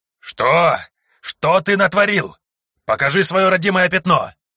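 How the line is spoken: Yelling priest. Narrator (Russian): заорал в мою сторону священник

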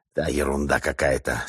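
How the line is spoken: Hissing whisper. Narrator (Russian): свистящим шепотом ответил тот

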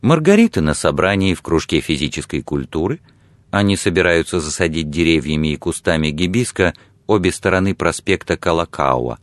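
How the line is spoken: Plain. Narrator (Russian): сказала она

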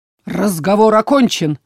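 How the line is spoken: Barked. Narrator (Russian): рявкнул он

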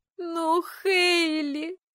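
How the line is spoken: Whining sister. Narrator (Russian): захныкала сестра

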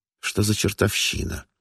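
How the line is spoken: Irritated inner thought. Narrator (Russian): раздраженно думал он

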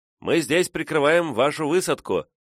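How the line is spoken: Shouted reply. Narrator (Russian): крикнул в ответ болтун

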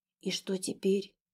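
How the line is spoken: Whispered question. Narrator (Russian): шепотом спросила Аллу

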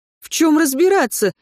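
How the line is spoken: Panicked inner shriek. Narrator (Russian): визжал в голове панический ужас

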